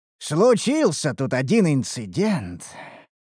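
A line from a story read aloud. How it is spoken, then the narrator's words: Sighing, blacksmith. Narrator (Russian): вздохнул кузнец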